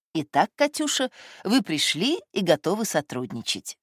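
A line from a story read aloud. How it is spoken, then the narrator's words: Affectionate. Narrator (Russian): сказал он ласково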